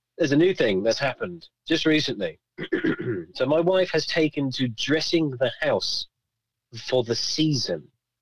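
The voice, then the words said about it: Voice keeps breaking. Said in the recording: “My voice keeps breaking.”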